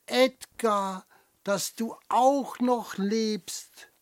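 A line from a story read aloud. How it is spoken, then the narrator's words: Called back. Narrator (German): ruft es zurück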